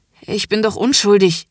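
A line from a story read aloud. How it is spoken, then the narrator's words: Groaning and gasping. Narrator (German): ächzt und keucht er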